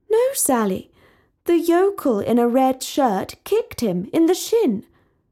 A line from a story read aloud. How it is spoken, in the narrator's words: Talia exclaimed